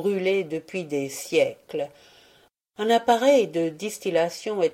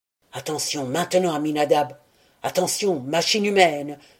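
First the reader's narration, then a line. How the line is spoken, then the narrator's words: Murmured. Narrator (French): murmura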